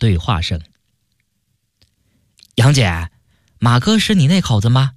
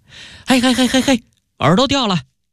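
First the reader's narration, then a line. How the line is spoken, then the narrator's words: Loud shout. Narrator (Chinese): 马特大叫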